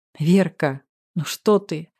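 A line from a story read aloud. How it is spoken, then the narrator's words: Affectionate. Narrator (Russian): ласково проговорил Максим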